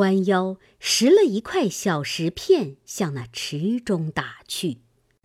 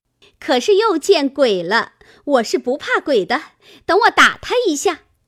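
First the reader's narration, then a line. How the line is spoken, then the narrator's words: Laughing. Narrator (Chinese): 湘云笑道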